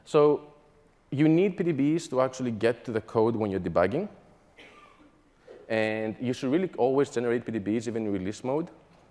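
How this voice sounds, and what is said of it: Mixed Greek, British and American accent. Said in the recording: “the Greek plus UK plus American accent.”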